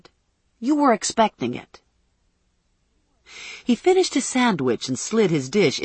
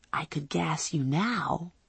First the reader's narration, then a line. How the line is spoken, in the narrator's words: I whispered